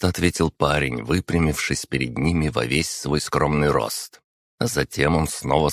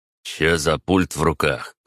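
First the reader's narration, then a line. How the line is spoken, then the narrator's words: Snorting, mocking. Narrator (Russian): хмыкнул задира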